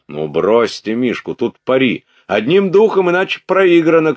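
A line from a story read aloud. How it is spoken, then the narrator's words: Shouting. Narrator (Russian): кричал четвертый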